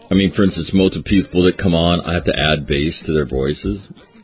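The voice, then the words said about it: Deep, low-pitched voice. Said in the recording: “Voice sounds deeper because I'm drinking hot tea ... And I already have a deep voice for radio”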